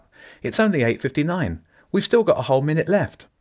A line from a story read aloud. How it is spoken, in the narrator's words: called out